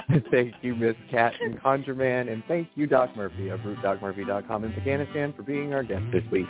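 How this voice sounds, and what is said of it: Southeastern US accent. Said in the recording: “the Southeast accent.”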